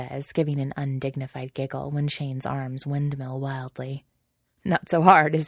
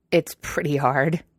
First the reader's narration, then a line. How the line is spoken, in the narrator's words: Shane grunts